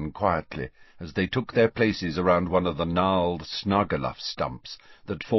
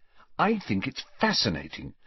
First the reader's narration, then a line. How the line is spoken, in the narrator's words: said Hermione earnestly